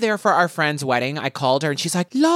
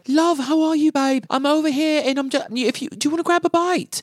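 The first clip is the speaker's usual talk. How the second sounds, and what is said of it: Put-on British accent. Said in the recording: “she has an English accent ... why are you talking like that? ... She fully talks with a British accent all the time”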